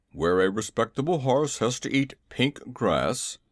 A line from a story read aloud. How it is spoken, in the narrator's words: he grumbled